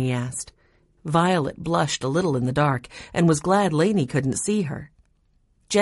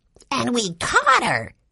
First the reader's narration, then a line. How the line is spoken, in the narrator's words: Benny concluded triumphantly